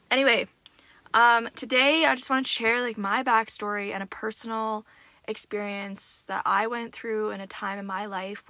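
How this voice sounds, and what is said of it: Raspy, hoarse voice. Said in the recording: “I am feeling like my voice is super raspy today. ... waking up every morning with the most raspiest voice ... it's not fun having a raspy voice”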